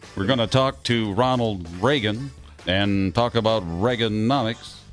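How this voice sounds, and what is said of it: Imitates a news anchor's distinctive delivery. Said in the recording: “I love David Brinkley because that is his delivery... His distinctive style. That was great. That was a good impression.”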